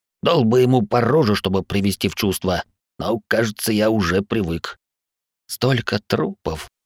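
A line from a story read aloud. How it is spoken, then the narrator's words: Whispered to no one. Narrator (Russian): прошептал Ларс, никому конкретно не обращаясь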